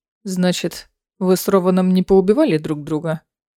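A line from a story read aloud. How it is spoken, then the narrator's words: Grumbling. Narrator (Russian): пробурчал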